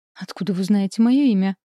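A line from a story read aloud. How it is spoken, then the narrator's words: Frightened mumble. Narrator (Russian): испуганно бормочет моя соседка по общаге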